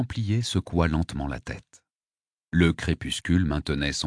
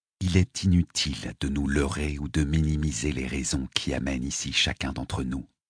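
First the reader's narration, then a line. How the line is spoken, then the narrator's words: Plain. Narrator (French): dit-il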